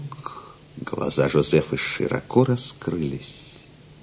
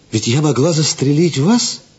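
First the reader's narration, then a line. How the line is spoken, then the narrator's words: Exclaiming. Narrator (Russian): воскликнула она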